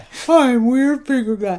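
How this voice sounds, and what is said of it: Bougie finger-puppet character voice. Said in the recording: “I like him doing this voice. He sounds a little bit more like Bougie Boy.”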